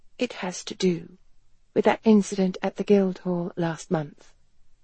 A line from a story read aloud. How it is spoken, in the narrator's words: Helen said softly